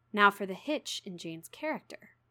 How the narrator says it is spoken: he said at last, speaking more calmly than, from his look, I had expected him to speak

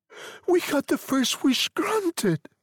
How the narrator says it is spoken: said the old woman desperately

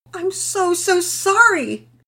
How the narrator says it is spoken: Penelope exclaimed

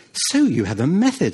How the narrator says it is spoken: Anselmo said eagerly

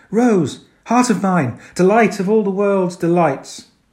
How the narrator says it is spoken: My voice cried out in ecstasy

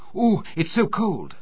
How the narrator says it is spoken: shivered and cried out

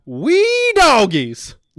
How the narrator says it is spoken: the coach would shout

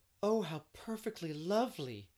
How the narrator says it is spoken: three of the girls cried

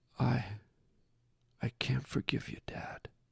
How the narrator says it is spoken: Brett said almost in a whisper

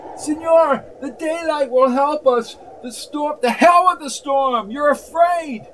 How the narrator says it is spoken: yelled McGee

